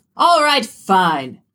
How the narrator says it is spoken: the judge shouted, somewhat petulantly

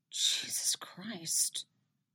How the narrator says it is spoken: Robin mutters, sounding just as horrified as Eddie is

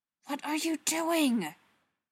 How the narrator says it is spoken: Spencer hisses at her

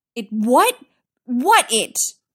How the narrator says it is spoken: Styles says, looking wildly around

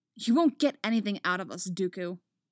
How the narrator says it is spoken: Anakin snaps

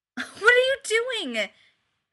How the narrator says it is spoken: Chad yelps

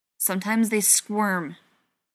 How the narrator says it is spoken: John said angrily

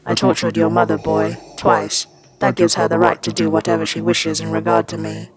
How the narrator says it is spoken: Vader said in a rough voice

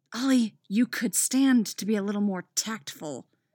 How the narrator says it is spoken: Dinah hisses

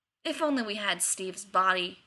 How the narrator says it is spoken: he muttered

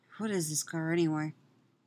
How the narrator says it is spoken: Ray murmurs back, a little defensively

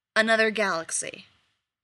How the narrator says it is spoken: Ruby says flatly

